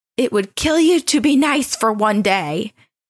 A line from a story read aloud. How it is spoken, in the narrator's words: his wife yelled